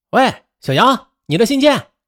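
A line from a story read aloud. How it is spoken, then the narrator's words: Sudden call. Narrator (Chinese): 工地上一位熟人突然喊道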